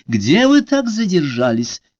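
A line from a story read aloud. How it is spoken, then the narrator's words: Shout. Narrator (Russian): крикнула она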